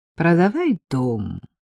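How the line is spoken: Friendly advising tone. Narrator (Russian): посоветовала Вика дружеским тоном

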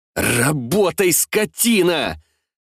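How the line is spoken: Irritated shout. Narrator (Russian): Раздраженно крикнув

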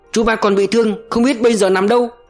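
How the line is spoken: Exclaiming. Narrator (Vietnamese): kêu lên

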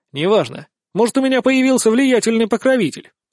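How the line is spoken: Snapped. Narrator (Russian): огрызнулся я

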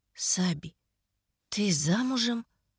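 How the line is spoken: Muffled question. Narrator (Russian): Глухо поинтересовалась Лекси

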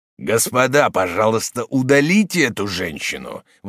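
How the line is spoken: Exclamation. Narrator (Russian): воскликнул Морок

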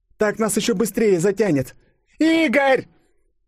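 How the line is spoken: Girl screaming. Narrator (Russian): завопила девушка

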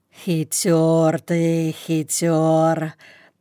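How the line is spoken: Muttering. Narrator (Russian): пробормотал Ваня

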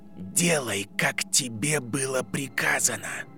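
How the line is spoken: Icy child's command. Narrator (Russian): велел темный лорд ледяным голосом, который в устах ребенка звучал еще ужасней

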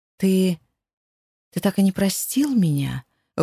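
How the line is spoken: Stunned breathy exhale. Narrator (Russian): выдохнула ошарашенно

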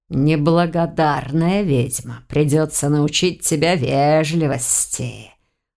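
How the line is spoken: Hissing. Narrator (Russian): прошипел он

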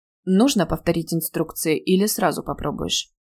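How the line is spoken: Even, level question. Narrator (Russian): ровным голосом спросил он

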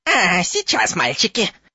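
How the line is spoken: Reproachful squeak. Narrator (Russian): с упреком пропищал профессор Флитвик

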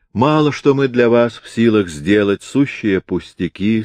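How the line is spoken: Plain. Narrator (Russian): сказала она

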